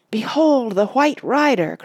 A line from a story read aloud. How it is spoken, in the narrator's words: cried Aragorn, and all took up the words